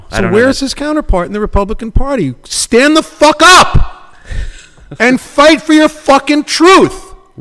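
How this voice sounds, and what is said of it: Loud, yelling delivery. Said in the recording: “Why are you yelling at me? ... Yeah, it feels like it.”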